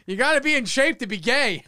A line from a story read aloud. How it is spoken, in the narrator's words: Rob just yelled